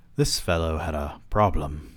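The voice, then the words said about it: Put-on British accent. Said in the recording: “I don't know why I'm giving this man a British accent”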